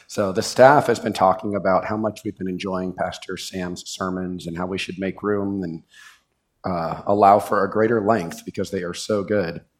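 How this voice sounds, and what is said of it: Hoarse, strained voice. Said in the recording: “I normally sound more pleasant than I do today... lost my voice”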